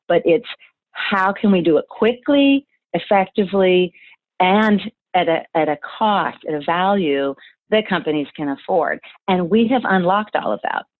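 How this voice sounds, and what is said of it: Excited, energetic voice. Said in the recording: “you can tell by my voice, I'm super excited. I'm excited”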